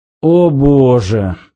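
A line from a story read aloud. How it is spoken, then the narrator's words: Groaning. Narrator (Russian): простонал Зафот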